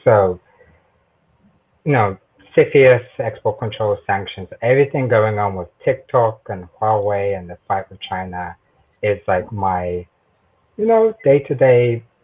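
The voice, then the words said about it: British South London accent. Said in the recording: “tell by accent, I'm originally from the United Kingdom, a proud son of South London”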